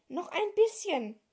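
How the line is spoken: Panting. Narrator (German): keuchte

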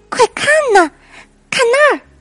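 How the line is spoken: Excited shout. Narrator (Chinese): 小老鼠兴奋的大叫起来

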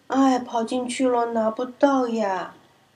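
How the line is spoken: Dejected sigh. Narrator (Chinese): 贝鲁沮丧的叹着气说

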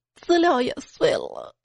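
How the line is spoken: Girl choking back tears. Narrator (Chinese): 小姑娘哽咽的说

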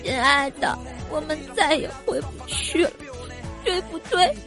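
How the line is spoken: Tearful, crying. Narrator (Chinese): 他突然哭了，眼泪汪汪的跟我说

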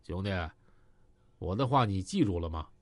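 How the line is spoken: Cold. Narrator (Chinese): 海波冷冷的说

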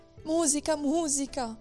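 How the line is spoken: Emperor's pleading. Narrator (Italian): implorava l'imperatore

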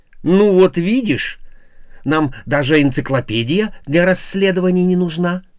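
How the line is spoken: Joyful. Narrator (Russian): радостно сказал Бабака

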